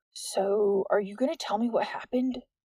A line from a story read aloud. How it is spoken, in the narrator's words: Jordan asked in a hushed voice